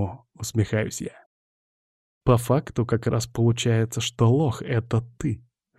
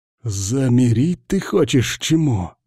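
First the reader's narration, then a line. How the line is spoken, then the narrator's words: Angry rasp. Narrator (Russian): зло хрипит Киргиз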